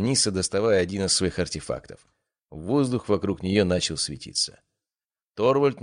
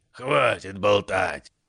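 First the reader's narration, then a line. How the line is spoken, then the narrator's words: Roar. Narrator (Russian): взревел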